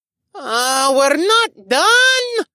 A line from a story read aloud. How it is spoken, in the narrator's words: Arik whined